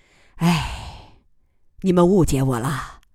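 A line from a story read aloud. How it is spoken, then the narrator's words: Long sigh. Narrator (Chinese): 姬仁瑞长叹一声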